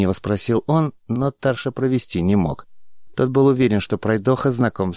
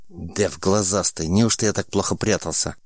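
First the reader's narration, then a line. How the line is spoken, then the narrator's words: Hurt, angry boy. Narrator (Russian): Задетый за живое, спросил мальчишка, сердито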